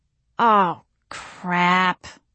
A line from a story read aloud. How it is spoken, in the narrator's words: I moaned